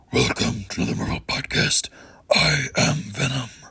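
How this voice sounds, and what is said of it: Venom character voice. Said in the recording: “doing the Venom voice”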